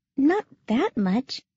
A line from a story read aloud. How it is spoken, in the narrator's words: she said uneasily